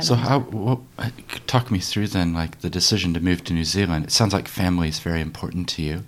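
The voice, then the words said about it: American accent. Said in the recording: “If you hear my accent, ... I've got connections back to America.”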